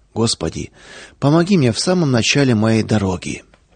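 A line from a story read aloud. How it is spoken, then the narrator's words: Deep sigh, then spoke. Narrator (Russian): А Павел вздохнул глубоко и молвил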